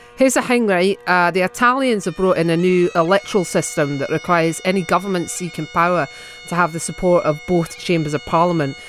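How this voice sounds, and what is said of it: Put-on Scottish accent. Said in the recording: “Scottish Boyfriend ... my beautiful attempt at the accent.”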